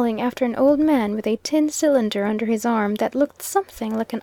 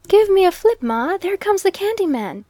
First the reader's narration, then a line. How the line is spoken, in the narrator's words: exclaimed a little fellow